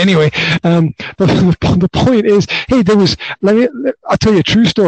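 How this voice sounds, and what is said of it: Usual voice. Nothing is said of it.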